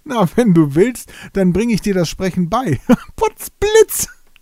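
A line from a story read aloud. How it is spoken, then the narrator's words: Delighted boatman. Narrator (German): freute sich der Binnenschiffer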